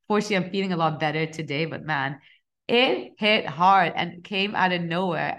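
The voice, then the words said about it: Croaky, hoarse voice. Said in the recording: “my voice might sound a bit croaky, might sound a bit out of it... coming off a pretty bad flu... such a bad chesty cough”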